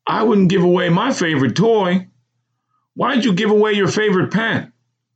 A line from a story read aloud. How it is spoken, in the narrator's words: almost desperately for clarity